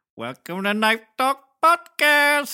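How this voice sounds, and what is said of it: Impression like Apu from The Simpsons. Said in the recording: “your impression of his impression of my impression ... It's kind of like a Apu in there. Apu from The Simpsons.”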